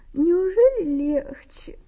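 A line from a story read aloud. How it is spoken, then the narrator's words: Sleepy question. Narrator (Russian): спросила сонно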